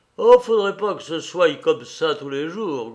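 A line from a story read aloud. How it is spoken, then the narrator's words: Grumbling. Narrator (French): grogne-t-il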